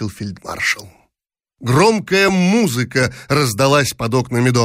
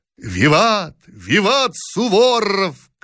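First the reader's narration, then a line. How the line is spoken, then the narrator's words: Crowd shouting. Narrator (Russian): кричала толпа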